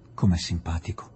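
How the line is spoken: Woman murmuring. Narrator (Italian): mormorò Adela

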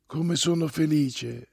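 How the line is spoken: Softly repeated. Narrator (Italian): ripeteva Olga piano, ammirando la propria vita

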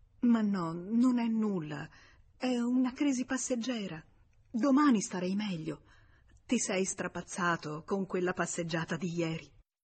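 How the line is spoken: Wife stammering through tears. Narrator (Italian): La moglie che s'era messa a piangere anche lei balbettò

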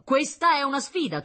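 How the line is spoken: Thundering voice. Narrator (Italian): tuonò il professor Terenzio

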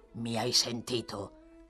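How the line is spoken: Growled. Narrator (Italian): ringhiò

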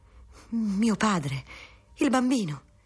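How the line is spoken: Exclaimed. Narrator (Italian): esclamava Teresa

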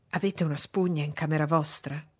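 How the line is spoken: Whispered. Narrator (Italian): mi sussurrò

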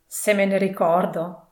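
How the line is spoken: Exclaiming. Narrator (Italian): esclamò Scrooge

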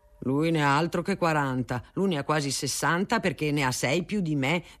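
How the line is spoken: Agitated, threatening tone. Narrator (Italian): diceva la Natalina, perché usava parlare sempre in tono concitato e con espressione minacciosa

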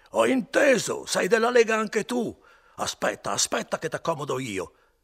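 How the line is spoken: Screaming ever louder. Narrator (Italian): cominciava a urlare più forte ancora

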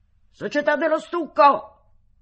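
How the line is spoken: Shrieking. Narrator (Italian): Barabas prese a strillare

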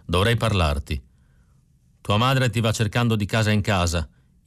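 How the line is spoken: Resentful reply. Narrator (Italian): risposi in tono risentito

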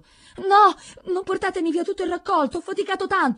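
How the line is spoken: Old man screaming desperately. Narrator (Italian): urlava un vecchio

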